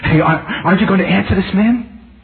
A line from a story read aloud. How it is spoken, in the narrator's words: nervously elbowing this professor and saying